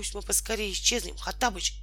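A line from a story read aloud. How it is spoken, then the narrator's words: Quick whisper. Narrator (Russian): быстро прошептал Волька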